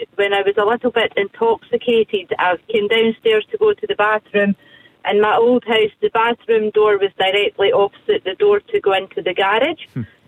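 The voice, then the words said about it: Scottish accent. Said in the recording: “You said it so beautifully with that accent. ... you're definitely Scottish, right? ... I'm definitely Scottish. ... it's a lovely sound for us this morning.”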